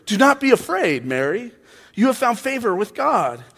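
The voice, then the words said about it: Weird, socially awkward angel voice. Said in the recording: “doing a weird voice for Gabriel Angel there, but he just comes across as socially awkward”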